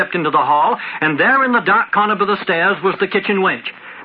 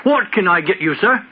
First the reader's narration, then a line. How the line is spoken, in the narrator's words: Awkwardly, blushed and stammered